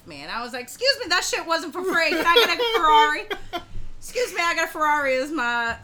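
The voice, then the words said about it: Blanche Dubois Southern accent. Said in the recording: “you picked up a Blanche Dubois accent out of nowhere”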